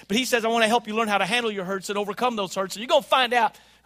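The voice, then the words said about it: Talking very fast. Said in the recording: “I'm talking really fast, aren't I?”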